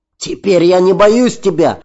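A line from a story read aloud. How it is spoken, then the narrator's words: Desperately brave shout. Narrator (Russian): крикнул Рон в храбром отчаянии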